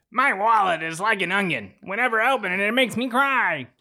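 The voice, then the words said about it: Imitates another person's voice. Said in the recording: “Just read the phrase as Gilbert Godfrey ... same phrase, same accent ... Little pitchy”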